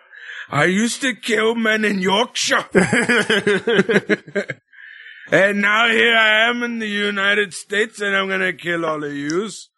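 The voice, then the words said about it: Poor put-on Yorkshire accent. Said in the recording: “Sorry for the terrible Yorkshire accent.”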